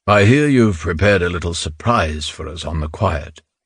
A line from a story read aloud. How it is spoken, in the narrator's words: Yakonov rumbled